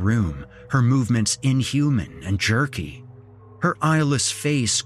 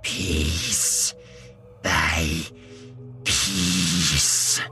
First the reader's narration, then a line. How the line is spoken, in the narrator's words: she hissed in a choked voice